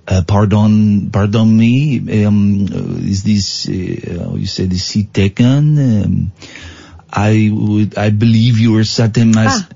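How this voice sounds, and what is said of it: Put-on French accent. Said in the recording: “My French accent is getting, guys and girls, it's getting super hot”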